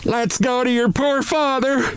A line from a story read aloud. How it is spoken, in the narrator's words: this shout